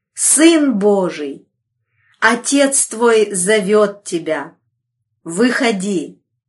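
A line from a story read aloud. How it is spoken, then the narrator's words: Thunderous angelic exclamation. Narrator (Russian): могущественный ангел воскликнул громовым голосом, заставившим содрогнуться землю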